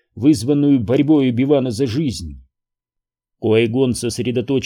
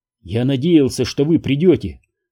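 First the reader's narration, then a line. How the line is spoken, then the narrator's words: Plain. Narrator (Russian): сказал Оби-Ван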